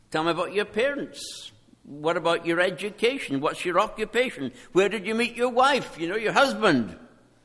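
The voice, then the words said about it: Speaks with a non-American accent. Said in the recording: “I give away where I'm from by my accent. I've been working on it for 40 years, but I still haven't managed”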